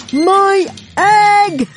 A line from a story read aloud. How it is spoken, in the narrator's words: shouted Horton